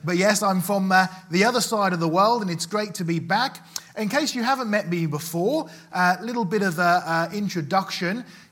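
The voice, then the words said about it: Noticeable regional accent. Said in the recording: “you may have noticed I have a bit of an accent, or you have a bit of an accent”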